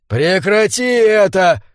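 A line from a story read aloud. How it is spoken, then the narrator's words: Sudden, almost pleading shout. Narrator (Russian): внезапно выкрикнул ей вслед Феннек, чуть ли не с мольбой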